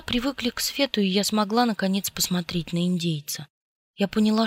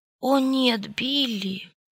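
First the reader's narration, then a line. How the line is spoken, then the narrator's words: Moaned. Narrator (Russian): простонала я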